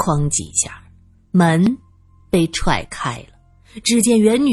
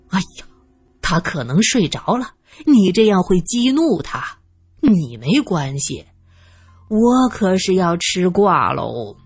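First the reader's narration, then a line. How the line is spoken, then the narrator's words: Sighing. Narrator (Chinese): 张亚明叹息着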